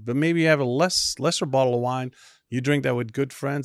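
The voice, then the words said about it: Non-Texan foreign accent. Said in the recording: “I don't hear a Texas accent. What is that accent that I hear?”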